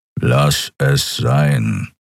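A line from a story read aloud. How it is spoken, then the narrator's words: Growled. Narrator (German): knurrte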